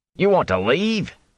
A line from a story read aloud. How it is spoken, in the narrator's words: he exclaimed